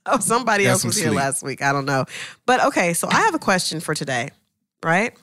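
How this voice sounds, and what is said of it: Voice still slightly sick. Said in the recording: “I'm still got a little bit of that. You hear it? You hear my voice is still a little bit”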